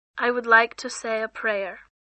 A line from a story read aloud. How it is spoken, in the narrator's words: she said softly